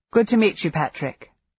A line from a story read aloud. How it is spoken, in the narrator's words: Will said